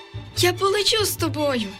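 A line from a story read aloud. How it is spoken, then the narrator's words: Joyful girl. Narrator (Ukrainian): відповіла радісно дівчинка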